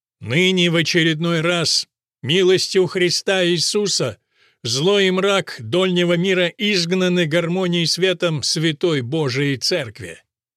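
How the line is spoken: Loud proclamation. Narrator (Russian): тот громко произнес

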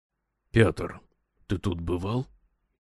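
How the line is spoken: Whisper. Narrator (Russian): шепнул лежащему рядом Устюгову Брехт

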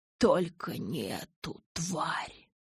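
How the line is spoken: Hissed. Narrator (Russian): прошипел он

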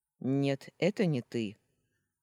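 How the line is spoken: Kidnapper's rough voice. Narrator (Russian): грубо произнес похититель

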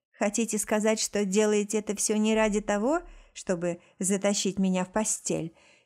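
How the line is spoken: Mocking question. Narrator (Russian): спросила насмешливо

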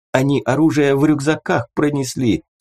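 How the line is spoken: Squeaky excuse. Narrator (Russian): пискнув, попытался оправдаться Хорь

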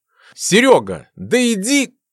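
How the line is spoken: Exclamation, barely holding back curse. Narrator (Russian): воскликнул он, едва удержав на языке ругательство

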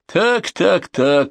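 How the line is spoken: High little voice. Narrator (Russian): сказал Ренард своим высоким голоском

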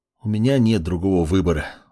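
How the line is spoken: Sighing. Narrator (Russian): вздохнул маг

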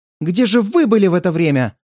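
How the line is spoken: Excited shout, female. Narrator (Russian): возбужденно крикнула она мне

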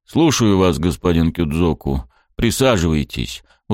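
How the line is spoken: Weary. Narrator (Russian): устало кивнул мне начальник стражи

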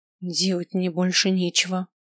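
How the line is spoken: Angry mutter. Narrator (Russian): пробормотал я, чувствуя, как злюсь все сильнее

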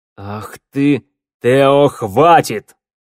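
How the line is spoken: Thunderous booming voice. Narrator (Russian): Голос змеевика прогремел под сводами пещеры точно гром

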